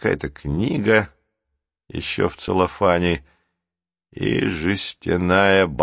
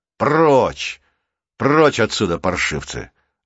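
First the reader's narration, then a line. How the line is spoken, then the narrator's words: Irritated big man shouting. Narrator (Russian): раздраженно вскричал здоровяк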